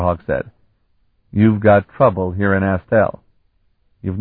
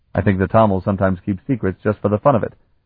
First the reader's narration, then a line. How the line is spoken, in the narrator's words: Mansell grunted